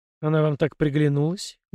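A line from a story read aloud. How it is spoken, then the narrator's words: Dull, muffled. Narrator (Russian): глухо уточнил я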